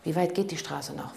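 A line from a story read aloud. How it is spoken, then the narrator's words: Plain. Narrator (German): fragte Cavalli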